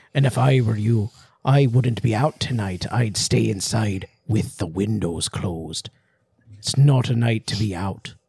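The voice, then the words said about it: Old man's voice in an accent. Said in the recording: “he gives her a very weird warning, too ... Do you want me to do it in the accent?”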